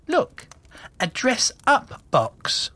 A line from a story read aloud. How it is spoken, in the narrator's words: she exclaimed in delight